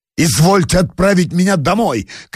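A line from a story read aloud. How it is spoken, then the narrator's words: Doctor shouting breathlessly. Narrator (Russian): крикнул доктор, задыхаясь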